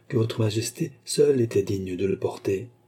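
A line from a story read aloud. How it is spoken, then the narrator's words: Timid. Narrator (French): dit Beausange timidement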